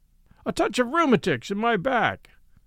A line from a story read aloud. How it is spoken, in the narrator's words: said the sergeant in a loud voice, as if he wanted some third person to hear us